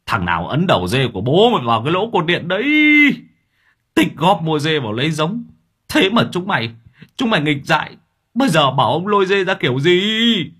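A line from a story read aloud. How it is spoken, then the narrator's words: Old man yelling angrily. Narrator (Vietnamese): Lão gào lên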